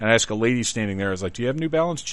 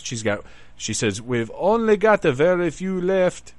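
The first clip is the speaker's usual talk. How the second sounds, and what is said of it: Vague put-on regional accent. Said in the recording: “I don't know what kind of accent I just did, and I'm sure it wasn't the one she had.”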